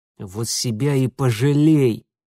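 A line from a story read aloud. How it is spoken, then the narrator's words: Venomous hiss. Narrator (Russian): прошипел Митя, зная, что сейчас в его интонациях звучит что-то гадючее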